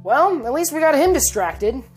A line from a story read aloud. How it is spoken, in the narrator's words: Cynthia exclaimed